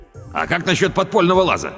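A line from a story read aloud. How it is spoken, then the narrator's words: Shout. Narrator (Russian): крикнул Педро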